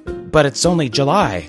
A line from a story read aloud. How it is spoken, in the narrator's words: he said in a shaky voice